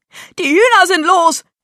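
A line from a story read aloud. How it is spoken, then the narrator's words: Shriek. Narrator (German): kreischte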